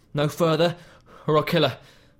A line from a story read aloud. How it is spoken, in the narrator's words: Jesse called out